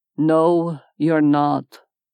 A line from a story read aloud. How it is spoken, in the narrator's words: Hunter said in a tired tone